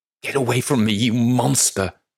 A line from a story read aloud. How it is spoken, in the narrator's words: She screeches